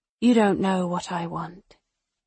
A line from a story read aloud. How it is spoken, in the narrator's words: Karis says softly